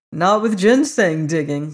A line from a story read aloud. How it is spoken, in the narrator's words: laughed the harvester